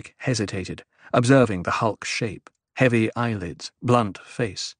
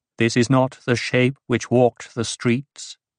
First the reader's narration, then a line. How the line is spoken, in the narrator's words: Edric asked